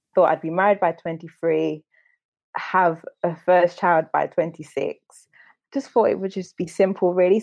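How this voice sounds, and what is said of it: Derby English accent. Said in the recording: “originally from Derby, if you couldn't tell from her lovely accent”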